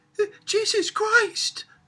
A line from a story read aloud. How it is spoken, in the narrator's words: Sophia shrieked without hearing what she said